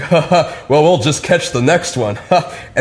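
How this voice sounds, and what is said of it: Man sounding like Harrison Ford. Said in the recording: “he sounds like Harrison Ford, right? Like he talks like this ... he's actually a native German, and that's just his English”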